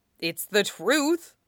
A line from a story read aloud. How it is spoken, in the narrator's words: Wan Yin grunts